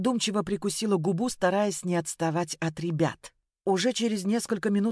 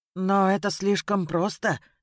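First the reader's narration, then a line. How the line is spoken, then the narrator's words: Uncertain mutter. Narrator (Russian): неуверенно пробормотала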